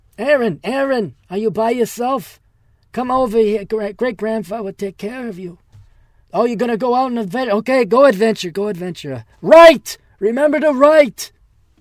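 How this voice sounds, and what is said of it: Old Jewish great-grandfather voice. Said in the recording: “Why am I Jewish all of a sudden? Why do I sound like my great-grandfather?”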